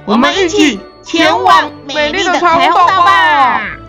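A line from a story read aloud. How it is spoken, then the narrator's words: Excited group shouting. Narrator (Chinese): 大家兴奋地喊道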